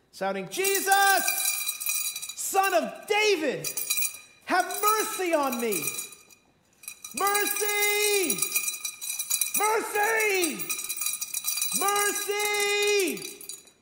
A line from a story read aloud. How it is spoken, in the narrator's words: This guy starts shouting